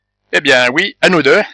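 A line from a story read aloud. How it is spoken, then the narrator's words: Widow's exclamation. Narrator (French): s'écria la veuve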